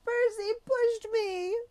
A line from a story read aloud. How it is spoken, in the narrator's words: Nancy was sitting on her butt in the fountain, screaming